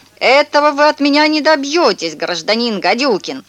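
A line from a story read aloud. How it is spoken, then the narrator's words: Boy's terrifying scream. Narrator (Russian): мальчик в черном костюме закричал страшным голосом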